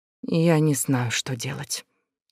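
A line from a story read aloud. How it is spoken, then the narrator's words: Quiet, to oneself. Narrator (Russian): тихо, как будто самой себе призналась Лаура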